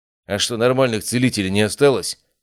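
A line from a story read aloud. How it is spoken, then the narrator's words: Displeased grumbling. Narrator (Russian): недовольно пробурчал один из них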